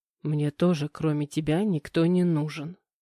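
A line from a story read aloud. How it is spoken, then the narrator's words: Soft male whisper. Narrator (Russian): тихо прошептал мужчина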